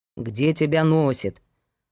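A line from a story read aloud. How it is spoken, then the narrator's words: Grumbling. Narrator (Russian): проворчал Герман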